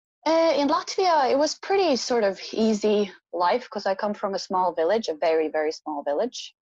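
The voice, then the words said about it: Irish-tinged accent. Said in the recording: “you've adapted to an Irish accent”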